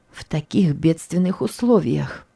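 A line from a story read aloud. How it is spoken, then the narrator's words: Barely audible woman repeating. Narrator (Russian): Еле слышно повторила женщина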